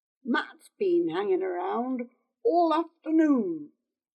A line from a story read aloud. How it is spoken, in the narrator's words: Hedron said